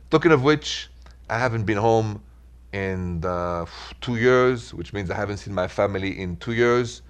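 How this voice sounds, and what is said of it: French accent. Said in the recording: “So is my accent, straight from Paris.”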